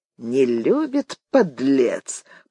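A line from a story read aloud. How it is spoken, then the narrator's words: Through clenched teeth. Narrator (Russian): процедил Виктор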